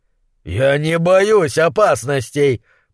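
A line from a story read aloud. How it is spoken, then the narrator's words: Roaring. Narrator (Russian): проревел он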